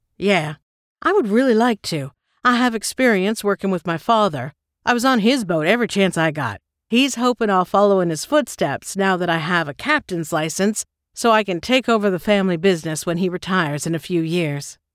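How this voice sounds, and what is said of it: Deep voice, rich southern accent. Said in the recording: “deep voice and rich southern accent”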